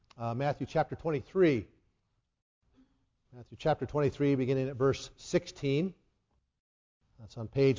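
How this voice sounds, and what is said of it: Strained, fading voice. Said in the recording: “my voice just started to leave me this morning”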